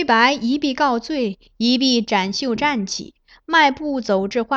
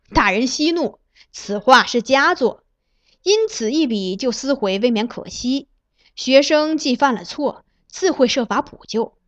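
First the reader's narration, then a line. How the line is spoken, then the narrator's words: Laughing. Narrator (Chinese): 崔白 笑道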